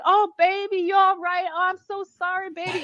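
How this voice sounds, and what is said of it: Imitated southern accent. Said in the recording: “in this great southern accent”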